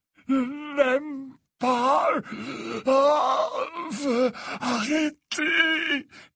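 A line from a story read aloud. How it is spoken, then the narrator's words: Moaning. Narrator (French): gémit Dumbledore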